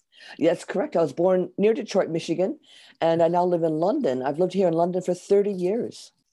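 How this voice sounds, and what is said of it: American accent with slight English tinge. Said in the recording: “my accent stays because I came here as an adult, and we're stuck with our accent ... I hear a little bit of England in there, a little bit”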